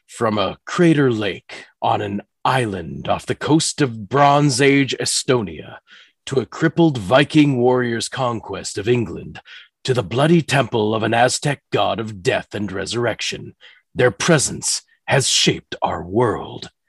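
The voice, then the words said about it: Spooky, ominous storytelling voice. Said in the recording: “I'm going to try to get on my scary voice here.”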